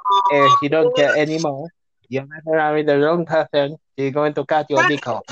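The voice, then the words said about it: Mock Spanish accent. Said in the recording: “Stop mimicking my accent. I do not talk like that. We Spanish people don't talk like that.”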